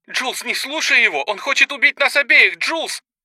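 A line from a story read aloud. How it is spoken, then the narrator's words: Desperate shouting. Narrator (Russian): кричала Сара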